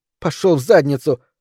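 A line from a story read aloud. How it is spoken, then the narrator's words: Snapped. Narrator (Russian): огрызнулась Микаэла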